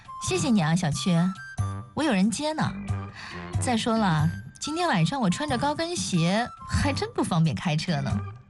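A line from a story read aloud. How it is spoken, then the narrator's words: Light cough, smiling. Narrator (Chinese): 樊胜美轻咳了一声，微笑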